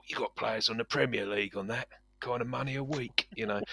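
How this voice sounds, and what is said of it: Generic British sports-radio bloke accent. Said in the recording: “I'm going to sound all talk sport. ... That's my generic talk sport bloke accent done.”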